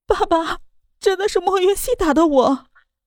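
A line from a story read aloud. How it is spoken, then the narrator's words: Pitiful crying. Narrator (Chinese): 江依依，楚楚可怜的，哭着道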